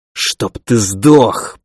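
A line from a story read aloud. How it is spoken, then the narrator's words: Growled curse. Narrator (Russian): прорычал я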